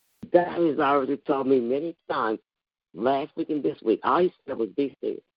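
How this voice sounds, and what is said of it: Hoarse voice. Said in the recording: “I apologize for my voice. It's so hoarse. ... that's why I'm hoarse. ... it made my whole throat sore.”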